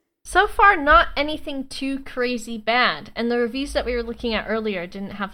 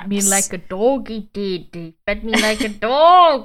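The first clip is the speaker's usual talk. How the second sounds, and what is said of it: Unidentified put-on accent. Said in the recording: “I don't know what accent it is, but something.”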